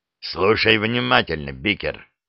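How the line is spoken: Growl into phone, strange voice. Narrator (Russian): прорычал Гарри в трубку, едва узнавая собственный голос

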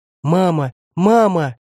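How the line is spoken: Little girls crying out tearfully. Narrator (Russian): кричали девчушки со слезами

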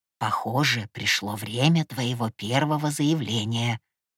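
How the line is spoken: Grandfather's whisper. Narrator (Russian): шепнул дедушка

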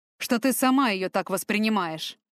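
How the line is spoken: Snort. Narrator (Russian): Фортом хмыкнул

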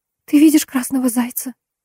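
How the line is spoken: Whisper. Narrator (Russian): прошептала она

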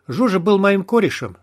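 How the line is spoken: Plain. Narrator (Russian): сказал он

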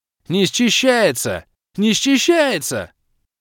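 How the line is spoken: Frenzied yelling. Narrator (Russian): Бешено вопил незнакомый мне перемазанный супчик

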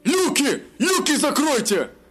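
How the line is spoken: Shout. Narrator (Russian): закричал Бовар

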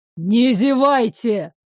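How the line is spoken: Barked. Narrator (Russian): рявкнул Горыныч

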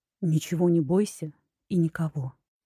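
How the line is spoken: Quiet male voice. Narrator (Russian): тихо произнес мужчина

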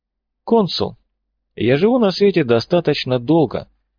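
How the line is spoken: Calm. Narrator (Russian): спокойно произнес доктор

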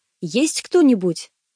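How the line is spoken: Reflexive shout. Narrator (Russian): я машинально выкрикнул

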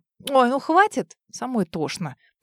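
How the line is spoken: Through gritted teeth. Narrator (Russian): Процедила я

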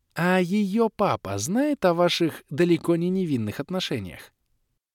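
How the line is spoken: Soft. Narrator (Russian): мягко произнесла Кэлен

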